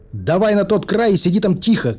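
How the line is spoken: Shouted back. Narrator (Russian): крикнул я в ответ

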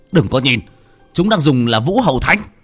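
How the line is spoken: Shouting. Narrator (Vietnamese): Một trong sáu tên hét lên

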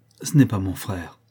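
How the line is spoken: Relieved sigh. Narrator (French): dit Sir Henry, avec un soupir de soulagement

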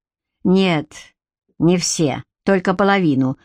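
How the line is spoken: Wry snort. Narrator (Russian): хмыкнул Гарик

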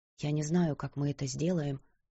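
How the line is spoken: Quiet. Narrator (Russian): тихо сказала

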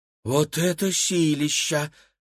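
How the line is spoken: Breathless exclamation. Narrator (Russian): выдохнула Кира

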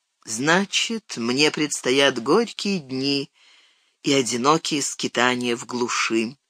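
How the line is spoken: Muffled dejected reply. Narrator (Russian): глухо ответил Арагорн

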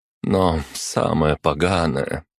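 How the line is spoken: Confessing with heavy sigh. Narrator (Russian): призналась Арана, тяжело вздохнув

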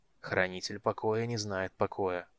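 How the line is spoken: Mutter. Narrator (Russian): пробормотал

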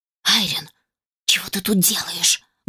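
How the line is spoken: Loud whispered question. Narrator (Russian): громким шепотом спросила она

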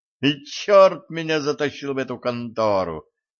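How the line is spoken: Howling intern. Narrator (Russian): взвыл стажер

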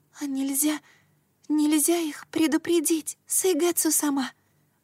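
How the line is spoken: Pleading. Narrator (Russian): взмолилась она

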